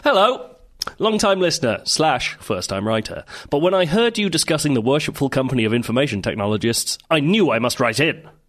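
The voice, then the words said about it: Put-on formal letter-reading voice. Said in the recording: “You can't stop doing this voice now... that's just my reading voice... Sometimes I get deeper”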